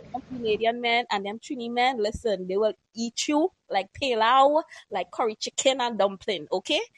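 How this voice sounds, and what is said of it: Trinidadian accent. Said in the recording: “we hear the accent. ... I am from Trinidad and Tobago. ... I was thinking, Trini”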